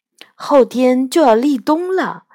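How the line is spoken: Sighing. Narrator (Chinese): 我感叹道

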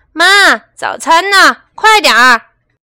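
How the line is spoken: Shouting. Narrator (Chinese): 西蒙和帕克总是大声喊

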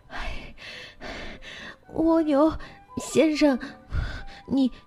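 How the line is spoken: Exhausted fawn, panting. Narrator (Chinese): 骄傲的小鹿终于跑得精疲力尽 大口大口的喘息着说

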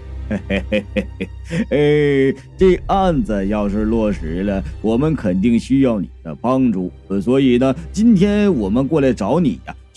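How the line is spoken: Laughing. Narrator (Chinese): 狗富贵笑着说

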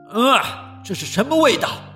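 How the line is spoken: Shouting. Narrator (Chinese): 卡奇的爸爸就喊着

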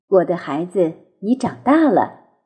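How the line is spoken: Sighing, wistful mother. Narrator (Chinese): 鳄鱼妈妈都会感叹地说

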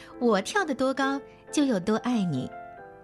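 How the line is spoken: Laughing. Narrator (Chinese): 兔妈妈也笑着说

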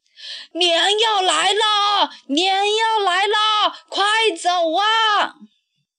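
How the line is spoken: Urgent shouting. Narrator (Chinese): 村长一面大喊

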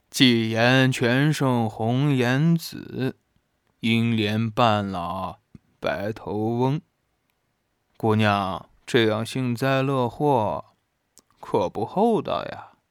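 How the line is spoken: Sighing. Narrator (Chinese): 周子舒摇头晃脑地叹息说道

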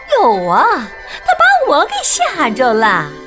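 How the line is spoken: Shrill retort. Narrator (Chinese): 老鼠用刺耳的声音回敬道

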